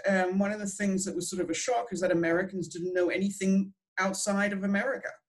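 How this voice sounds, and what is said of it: Australian accent, not English. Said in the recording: “My accent's completely not English ... nobody could sort of understand my accent”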